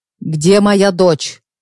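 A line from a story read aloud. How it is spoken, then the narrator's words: Menacing question from father. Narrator (Russian): грозно спросил отец Нади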